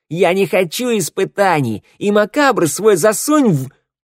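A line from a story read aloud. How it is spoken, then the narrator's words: Mirror shouting. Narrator (Russian): зеркало закричало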